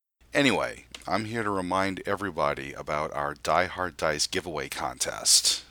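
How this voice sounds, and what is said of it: Congested, slightly off voice. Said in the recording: “my voice sounds a little off ... Got a little chest congestion”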